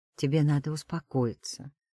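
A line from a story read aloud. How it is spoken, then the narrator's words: Quiet request. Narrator (Russian): прошу тихо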